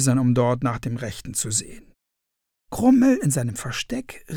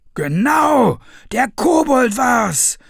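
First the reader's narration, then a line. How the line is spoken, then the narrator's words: Villagers shouting. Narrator (German): schrien die anderen Dorfbewohner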